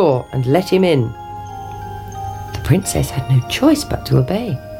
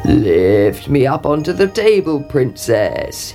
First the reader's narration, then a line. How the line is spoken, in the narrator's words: he croaked